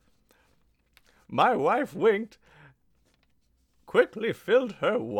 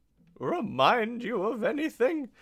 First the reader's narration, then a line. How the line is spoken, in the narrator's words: she said as the two girls cackled together